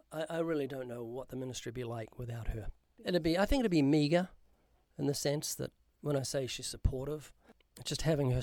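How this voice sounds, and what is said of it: New Zealand accent. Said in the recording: “I'm sure people can hear from your accent. You're from New Zealand.”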